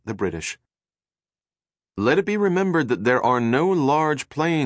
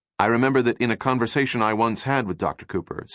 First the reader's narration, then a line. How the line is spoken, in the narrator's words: said Robert Troop